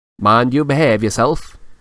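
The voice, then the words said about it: Uncanny impression of Percy. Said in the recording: “in an uncanny impersonation of Percy”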